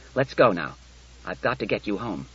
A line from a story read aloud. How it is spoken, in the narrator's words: He said curtly